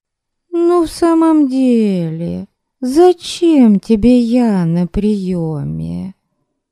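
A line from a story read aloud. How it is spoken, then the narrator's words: Whining. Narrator (Russian): Заныла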